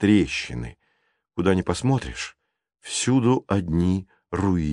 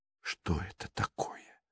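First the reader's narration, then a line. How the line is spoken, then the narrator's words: Whispering. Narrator (Russian): прошептала Анита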